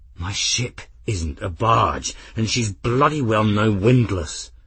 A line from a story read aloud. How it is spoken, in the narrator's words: Grim snarled